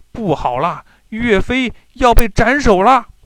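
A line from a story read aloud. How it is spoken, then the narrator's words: Shouting. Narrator (Chinese): 张宝大叫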